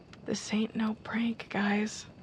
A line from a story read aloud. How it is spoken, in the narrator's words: Eric went white as a sheet and he whispered